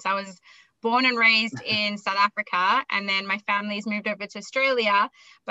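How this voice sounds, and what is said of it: Funny blend of accents. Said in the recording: “you'll hear I might have a funny accent. So I have a bit of a blend of accents. ... I've got a big blend of accents.”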